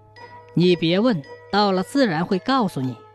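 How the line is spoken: Old woman, smiling. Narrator (Chinese): 老妇人笑着说

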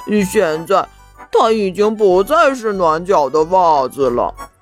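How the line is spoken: Mumbling. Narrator (Chinese): 他嘟嘟囔囔地说道

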